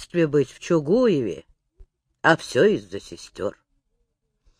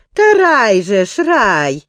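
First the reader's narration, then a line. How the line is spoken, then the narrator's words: Cheerful. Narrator (Russian): весело заговорила пани Гетманова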